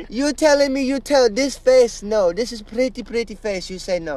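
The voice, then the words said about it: Exaggerated put-on foreign accent. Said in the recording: “I can't handle this accent.”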